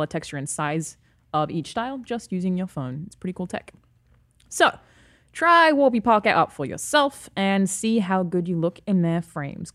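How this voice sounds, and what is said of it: Non-native accent, trouble with R sounds. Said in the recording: “If my accent confuses you ... It's too many R's in there for me.”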